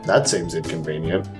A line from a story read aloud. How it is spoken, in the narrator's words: Jay mutters